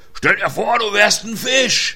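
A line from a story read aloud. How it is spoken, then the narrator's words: Ship's cook calling. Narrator (German): rief Alfons, der Schiffskoch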